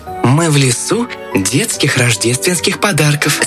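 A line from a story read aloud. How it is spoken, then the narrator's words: Plain. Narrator (Russian): сказал щелкунчик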